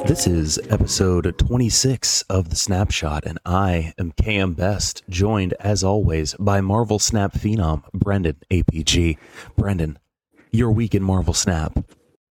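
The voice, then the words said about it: Polished radio announcer voice. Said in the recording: “You really turned on the radio voice there”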